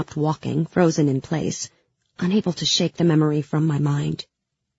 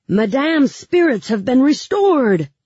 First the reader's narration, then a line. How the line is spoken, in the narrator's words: Mal shouted